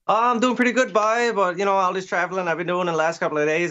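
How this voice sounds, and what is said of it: Strong Canadian accent. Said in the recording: “from north of the border ... I think I understood all of that ... You guys want an accent”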